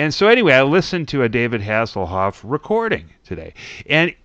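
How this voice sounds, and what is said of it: Usual voice. Nothing is said of it.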